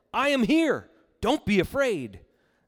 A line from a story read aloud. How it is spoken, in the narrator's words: he called out to them